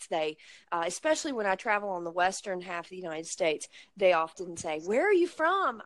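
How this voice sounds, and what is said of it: Rural Blue Ridge Mountains American accent. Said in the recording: “i grew up in uh, very rural area in the mountains of uh, the United States, of the Blue Ridge Mountains. And my accent has multiple influences from immigrant populations that that populated that region, including the Scotch Irish and Dutch and German ... people will ask me if I have an Australian accent ... apparently I sound quite unique”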